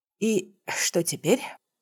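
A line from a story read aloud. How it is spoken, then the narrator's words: Breathed out. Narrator (Russian): выдохнула я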